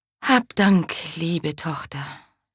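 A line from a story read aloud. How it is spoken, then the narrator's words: Mother sighing. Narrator (German): seufzte die Mutter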